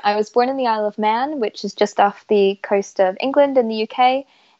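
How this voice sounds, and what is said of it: Mixed UK and Canadian accent. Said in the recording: “you're also have a uk background just for people guessing your accent right now it's quite uh quite unique ... my accent is so all over the show”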